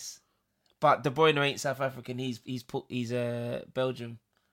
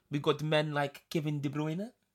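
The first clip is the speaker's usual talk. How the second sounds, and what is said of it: Put-on South African accent. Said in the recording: “I don't know why I said it in a South African accent ... That's proper South African.”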